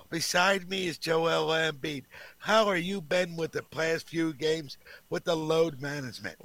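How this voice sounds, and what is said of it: Howard Cosell impression. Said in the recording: “I got Howard Cosell. I'll do as Howard Cosell.”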